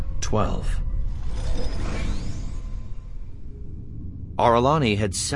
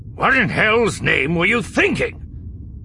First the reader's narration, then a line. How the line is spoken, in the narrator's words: snapped